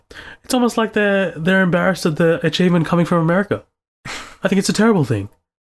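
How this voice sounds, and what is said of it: Poor imitation of another person's voice. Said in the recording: “that was a terrible accent ... You butchered that.”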